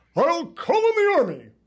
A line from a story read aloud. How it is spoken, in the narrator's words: boomed the general